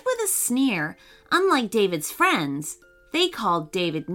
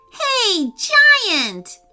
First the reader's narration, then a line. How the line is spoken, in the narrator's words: shouted Jamie Wisman